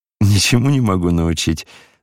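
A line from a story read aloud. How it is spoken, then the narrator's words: Laughing. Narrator (Russian): смеялся и князь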